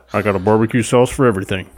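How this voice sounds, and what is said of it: Impression of Mr. Got Blood Outdoors. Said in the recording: “He literally said that. ... you do a pretty good impression of him.”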